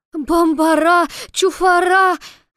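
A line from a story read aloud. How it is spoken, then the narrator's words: Furious shriek. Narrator (Russian): Яростно взвизгнул налетевший вихрь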